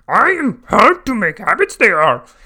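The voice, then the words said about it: Imitates another person's voice. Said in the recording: “that was a impression of Mr. Red, not Yoda”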